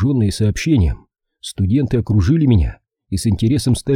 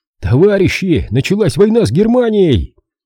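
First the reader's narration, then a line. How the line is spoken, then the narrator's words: Loud shout. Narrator (Russian): Я громко на весь коридор прокричал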